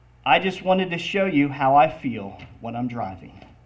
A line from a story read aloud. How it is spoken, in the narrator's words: The husband just calmly replied